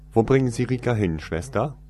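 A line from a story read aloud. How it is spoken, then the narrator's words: Loud, very surprised question. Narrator (German): fragte er laut und klang sehr verwundert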